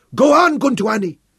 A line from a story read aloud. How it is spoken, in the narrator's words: Abberley shouted back